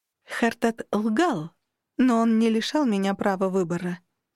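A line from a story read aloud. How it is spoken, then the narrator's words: Slow explanation. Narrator (Russian): медленно пояснила инкубу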